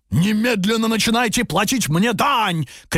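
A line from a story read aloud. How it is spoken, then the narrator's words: Ogre shouting. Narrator (Russian): кричал людоед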